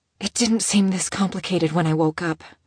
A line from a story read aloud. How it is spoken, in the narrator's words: she whispered to her knees